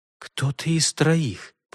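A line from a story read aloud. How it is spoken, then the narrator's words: Muttered. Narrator (Russian): пробормотала Элеонора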